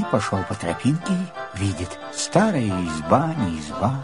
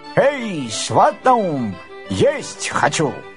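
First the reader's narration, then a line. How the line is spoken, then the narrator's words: Shouted. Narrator (Russian): крикнул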